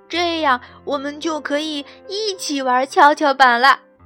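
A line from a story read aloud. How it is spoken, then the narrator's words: Shouting together. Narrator (Chinese): 小狗狗和小老鼠叫道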